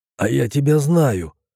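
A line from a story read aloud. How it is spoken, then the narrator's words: Hoarse. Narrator (Russian): прохрипел я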